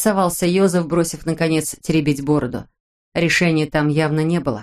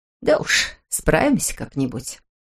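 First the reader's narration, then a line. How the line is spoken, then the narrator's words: Grumbled. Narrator (Russian): буркнула Герта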